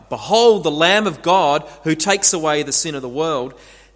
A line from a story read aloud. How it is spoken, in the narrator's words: John that day when he cried out